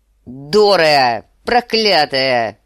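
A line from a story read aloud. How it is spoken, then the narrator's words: Roaring man. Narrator (Russian): взревел сир Джорах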